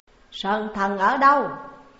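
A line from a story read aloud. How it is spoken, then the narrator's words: Loud bark. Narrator (Vietnamese): Ông ta lớn tiếng quát lên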